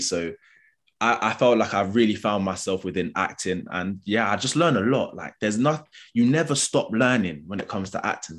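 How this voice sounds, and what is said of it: London accent. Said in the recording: “obviously I've got a London accent, growing up in London”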